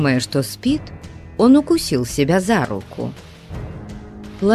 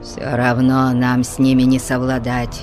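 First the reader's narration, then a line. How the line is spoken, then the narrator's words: Grumbling. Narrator (Russian): пробурчал Тубал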